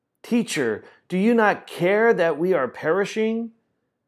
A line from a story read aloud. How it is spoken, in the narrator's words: the disciples exclaimed while they were feeling tossed in the storm